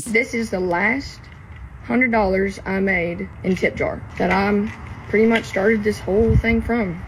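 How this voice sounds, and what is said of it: Southern American accent. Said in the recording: “Love that Southern accent.”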